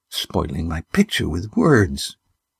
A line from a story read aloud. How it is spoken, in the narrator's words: she muttered